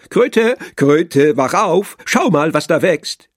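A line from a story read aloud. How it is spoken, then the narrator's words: Calling out. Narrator (German): Frosch kam und rief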